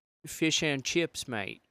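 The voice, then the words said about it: Put-on English accent. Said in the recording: “let's do an English... An English accent.”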